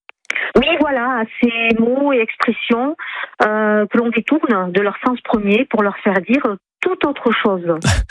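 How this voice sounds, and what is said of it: Slight regional French accent. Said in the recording (French): “vous n'êtes pas en Normandie et ça s'entend un petit peu votre accent.”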